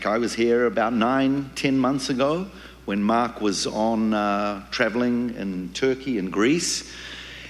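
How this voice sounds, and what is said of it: New Zealand accent. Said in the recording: “originally I'm from New Zealand. You can tell my accent”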